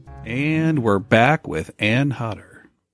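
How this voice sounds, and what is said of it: Announcer-style radio voice. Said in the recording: “doing your radio voice ... Radio voice. It's the same as my strip club DJ voice.”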